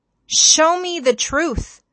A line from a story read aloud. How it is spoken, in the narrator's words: he pleads of the Lord